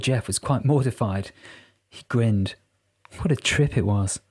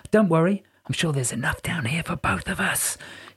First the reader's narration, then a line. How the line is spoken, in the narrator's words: whispered in a conspiratorial tone